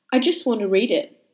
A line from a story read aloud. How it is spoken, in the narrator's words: I said